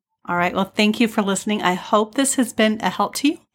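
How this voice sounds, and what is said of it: Weak voice lacking full strength. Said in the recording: “I apologize for my voice. It still doesn't have full strength in it.”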